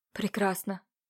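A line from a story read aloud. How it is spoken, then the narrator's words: Relieved exhale. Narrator (Russian): выдохнул облегченный Илья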